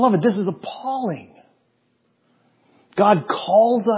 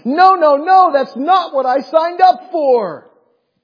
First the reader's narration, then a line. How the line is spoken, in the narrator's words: run screaming into the night going